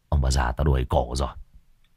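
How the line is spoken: Grumbling. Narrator (Vietnamese): miệng cằn nhằn

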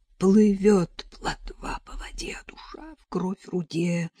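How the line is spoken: Whispering. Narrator (Russian): продолжала шептать Параша

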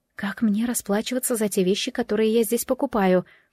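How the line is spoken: Whispered question. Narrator (Russian): шепотом спросила Джемма у Бернара

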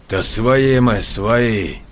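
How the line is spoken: Hiss. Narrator (Russian): прошипел Ионников

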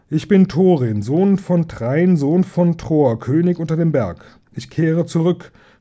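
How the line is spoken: Mighty shout. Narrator (German): schrie Thorin mit gewaltiger Stimme von der Tür her

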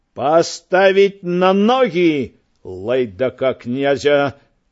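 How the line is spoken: Father's menacing roar. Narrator (Belarusian): гросна рыкнуў бацька

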